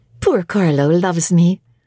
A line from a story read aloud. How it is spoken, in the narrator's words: said she